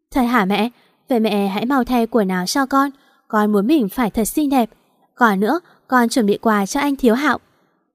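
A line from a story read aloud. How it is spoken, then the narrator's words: Girl giggling, excited. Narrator (Vietnamese): Cô bé cười khúc khích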